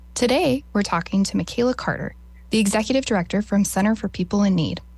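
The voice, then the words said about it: Polished radio-announcer voice. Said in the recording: “you have the most amazing radio voice.”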